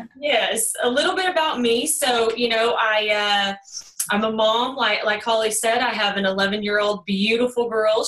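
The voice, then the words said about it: Texas twang accent. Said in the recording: “there is a little bit of an accent here ... this Texas twang”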